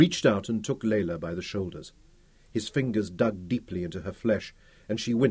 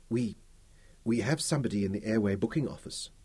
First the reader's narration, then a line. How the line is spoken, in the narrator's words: she whispered, no longer trying to escape the agony of his grip